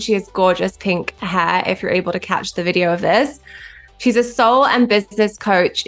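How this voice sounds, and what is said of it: Distinctive accent, says y'all. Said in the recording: “I am obsessed with your voice, your accent ... it's so good ... what is your accent? ... She said, y'all.”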